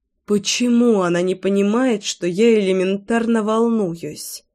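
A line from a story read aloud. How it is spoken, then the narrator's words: Grumbling. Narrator (Russian): проворчала Лина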